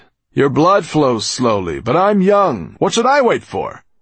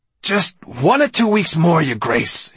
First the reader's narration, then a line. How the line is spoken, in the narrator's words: he said urgently